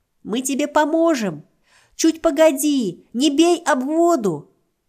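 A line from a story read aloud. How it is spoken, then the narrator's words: Shouting turtles. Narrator (Russian): кричали черепашки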